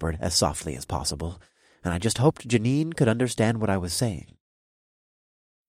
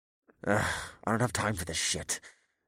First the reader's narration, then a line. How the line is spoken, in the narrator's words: the officer finally grumbled